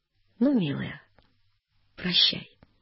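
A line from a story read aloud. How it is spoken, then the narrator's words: Gentle, serene. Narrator (Russian): благостный, ласково сказал барышне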